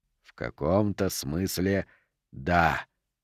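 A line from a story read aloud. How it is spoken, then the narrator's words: Hissing. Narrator (Russian): прошипел Мефисто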